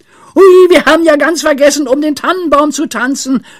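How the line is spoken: Sudden shout. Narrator (German): schrie Pippi plötzlich

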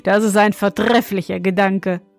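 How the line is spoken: Young king, laughing. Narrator (German): meinte der junge König und lachte

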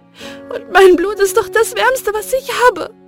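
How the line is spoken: Sobbing. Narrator (German): schluchzte sie

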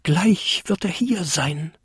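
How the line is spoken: Excited whisper to oneself. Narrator (German): flüsterte der kleinste Winterkobold aufgeregt vor sich hin

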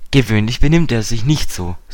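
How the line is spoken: Plain. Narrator (German): sagte Dick

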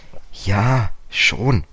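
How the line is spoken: Hesitant. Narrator (German): sagte George zögernd

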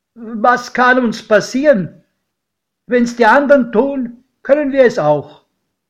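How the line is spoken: Sudden call. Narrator (German): Plötzlich da rief mein Pate

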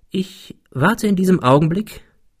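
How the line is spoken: Calm, continuing. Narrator (German): fuhr er ruhig fort

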